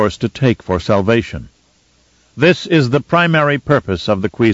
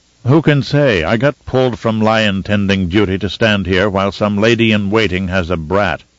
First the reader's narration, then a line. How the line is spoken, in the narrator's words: DeVries said, his voice gruff with disgust